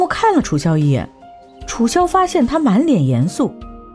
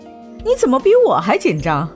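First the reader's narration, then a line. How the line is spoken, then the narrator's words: Laughing. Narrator (Chinese): 楚萧笑着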